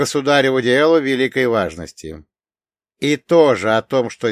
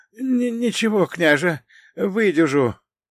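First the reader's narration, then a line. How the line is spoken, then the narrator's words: Hoarse, forcing a smile. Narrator (Russian): прохрипел тот, пытаясь улыбнуться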